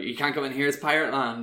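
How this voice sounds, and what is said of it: West Country pirate accent. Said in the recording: “speaking like pirates ... i don't know why i'm doing west country ... that is basically pirate accent”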